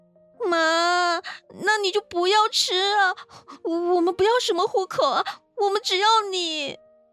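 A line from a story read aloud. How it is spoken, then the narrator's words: Crying. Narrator (Chinese): 我哭着 … 说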